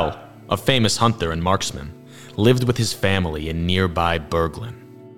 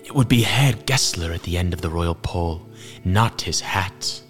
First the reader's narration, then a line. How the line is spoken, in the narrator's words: a woman whispered